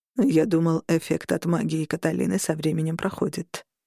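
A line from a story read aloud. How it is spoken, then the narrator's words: Quiet. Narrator (Russian): тихо сказал Роган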